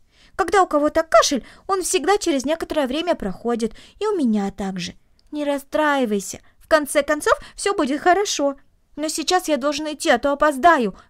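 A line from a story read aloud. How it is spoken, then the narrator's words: Exclaiming. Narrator (Russian): воскликнул он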